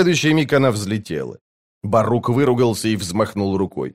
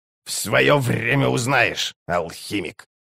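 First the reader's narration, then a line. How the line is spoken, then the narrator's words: Grumbling old hag. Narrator (Russian): проворчала Карга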